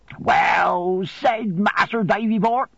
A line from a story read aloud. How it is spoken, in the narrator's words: cried Ham in an ecstasy